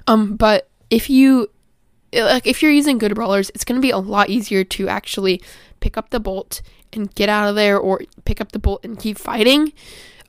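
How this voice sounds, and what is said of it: Slightly scratchy voice. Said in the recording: “my voice is a little scratchy today”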